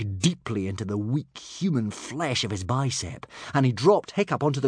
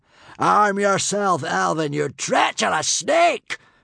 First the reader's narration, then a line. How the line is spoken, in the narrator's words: shouted Humongously Hotshot